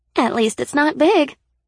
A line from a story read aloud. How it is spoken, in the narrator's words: Sybil chirped in my ear, her computerized voice cheerful as always